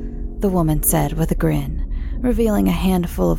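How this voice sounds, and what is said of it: Usual voice. Nothing is said of it.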